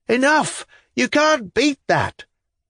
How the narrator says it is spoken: People yelled, even some of the ladies shouted

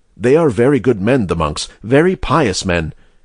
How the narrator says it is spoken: Malins could be heard saying to her neighbor in an indistinct undertone

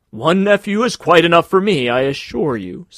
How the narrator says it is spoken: said Carl's uncle, laughing

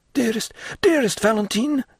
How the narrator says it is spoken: exclaimed he

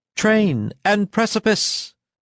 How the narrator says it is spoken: cried Luzhin again

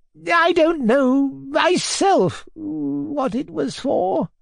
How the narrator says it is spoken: replied the poor old man

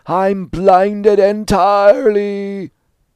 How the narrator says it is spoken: He stopped in a fit of coughing and laughter, repeating

